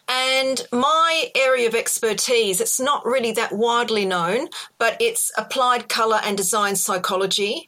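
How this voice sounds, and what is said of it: Australian accent. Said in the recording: “Probably hear from my accent. It's an Australian accent”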